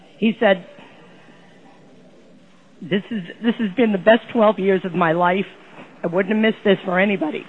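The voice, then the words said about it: Tearful, emotional voice. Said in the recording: “the tears that you hear in my voice”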